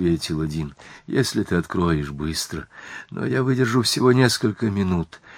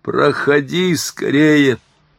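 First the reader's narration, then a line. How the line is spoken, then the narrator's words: Shouting. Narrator (Russian): закричал я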